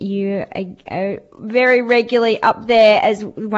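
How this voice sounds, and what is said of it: Usual voice. Nothing is said of it.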